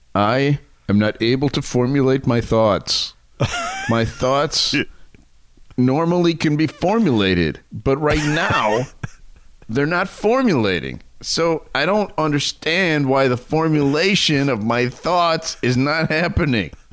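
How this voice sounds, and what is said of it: Impression of someone sounding drugged. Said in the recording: “he's like completely high on drugs ... I'll try to do an impersonation of what he sounded like”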